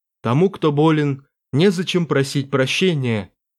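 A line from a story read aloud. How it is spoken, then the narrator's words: Gentle remark. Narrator (Russian): мягко заметил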